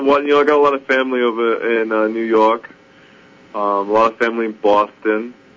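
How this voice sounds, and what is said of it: Put-on New Jersey accent. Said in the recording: “I do Jersey a lot... Talk to me in Jersey.”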